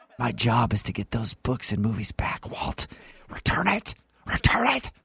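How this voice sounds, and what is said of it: Eerie, raspy whisper. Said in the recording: “You sound like the Exorcist. ... the whispering”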